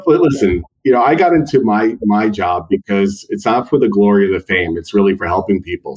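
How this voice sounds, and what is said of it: Long Island accent. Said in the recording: “yes, I am in Long Island. Yes. So you could tell a little bit about the accent, born and raised”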